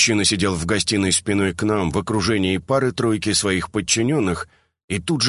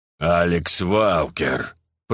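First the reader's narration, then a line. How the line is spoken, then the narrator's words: Hissed through teeth, hateful. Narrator (Russian): процедил сквозь зубы, и такая неприкрытая ненависть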